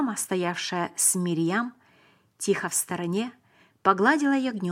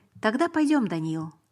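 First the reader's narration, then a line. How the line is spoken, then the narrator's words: Calm. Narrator (Russian): сказал он спокойно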